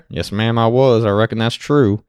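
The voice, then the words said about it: Put-on cowboy drawl. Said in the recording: “I was actually wearing full cowboy attire... I have my accent”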